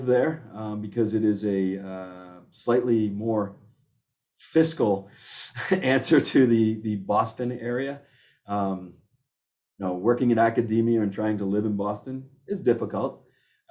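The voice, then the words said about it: Half Massachusetts, half New York accent. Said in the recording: “the accent is this kind of half Massachusetts, half New York. We're sandwiched somewhere in between there”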